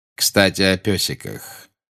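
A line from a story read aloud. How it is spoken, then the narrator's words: Tender. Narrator (Russian): нежно сказал Снег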